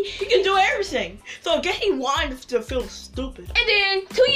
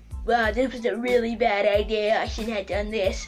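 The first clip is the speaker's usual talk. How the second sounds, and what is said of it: Imitates another person's voice. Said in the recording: “that was a Trump impression”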